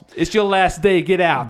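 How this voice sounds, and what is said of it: Put-on Boston accent. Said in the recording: “this Boston Mass accent. ... It makes anything sound awesome.”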